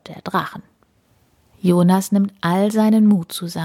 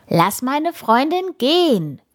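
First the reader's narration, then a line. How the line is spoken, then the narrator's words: Shouting at full volume. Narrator (German): ruft er, so laut er kann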